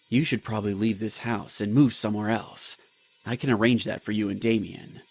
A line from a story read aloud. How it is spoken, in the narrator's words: He spoke in a low voice